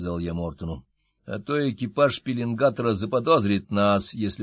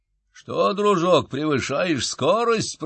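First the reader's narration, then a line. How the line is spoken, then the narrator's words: Growl. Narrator (Russian): прорычал я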